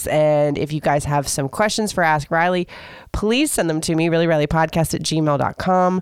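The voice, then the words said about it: Hoarse, deep, congested voice. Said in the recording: “my voice is starting to go ... my manly voice and my stuffiness”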